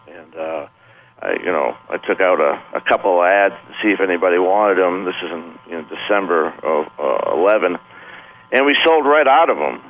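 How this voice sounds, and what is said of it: Boston accent. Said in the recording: “your accent, pardon the expression, does not scream California... No, I'm from Boston, actually”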